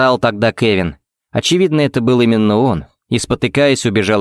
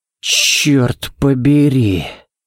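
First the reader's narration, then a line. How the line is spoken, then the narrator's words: Breathless exclamation. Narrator (Russian): Выдохнул Балок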